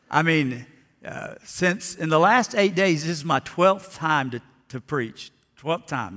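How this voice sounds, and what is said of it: Slightly hoarse voice. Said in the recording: “my voice sounds a little hoarse,”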